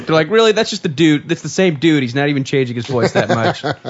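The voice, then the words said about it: Imitated English child's voice. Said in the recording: “my impression of an English child”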